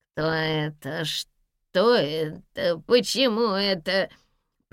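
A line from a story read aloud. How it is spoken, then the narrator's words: Nasal babbling. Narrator (Russian): пролепетал гнусавый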